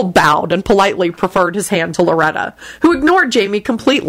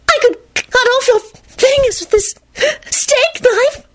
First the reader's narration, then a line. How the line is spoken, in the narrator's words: she breathed fervently